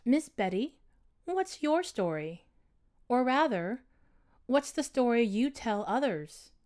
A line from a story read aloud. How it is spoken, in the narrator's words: In a calm, soothing voice, she asked